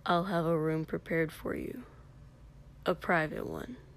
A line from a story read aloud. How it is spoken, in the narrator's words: Katsuki said in a low, secretive voice